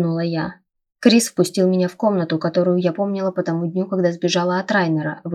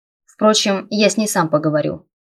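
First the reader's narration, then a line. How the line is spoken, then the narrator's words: Thoughtful snort. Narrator (Russian): подумав, хмыкнул Крис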